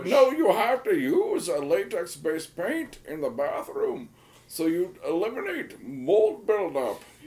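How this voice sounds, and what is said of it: Bane impression. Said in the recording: “the Bane one we did ... bad Bane impression”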